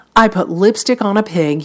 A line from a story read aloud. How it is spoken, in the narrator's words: he said